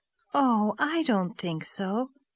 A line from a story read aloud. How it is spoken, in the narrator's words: said Diana